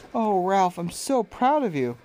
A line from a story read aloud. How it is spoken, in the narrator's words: said his mother with a sigh of relief